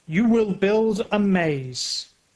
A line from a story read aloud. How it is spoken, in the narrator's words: he says